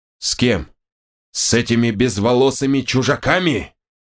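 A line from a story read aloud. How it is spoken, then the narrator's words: Indignant growl. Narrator (Russian): От возмущения Ванар рыкнул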